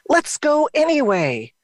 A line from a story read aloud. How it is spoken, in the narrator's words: Mom shouted through the rain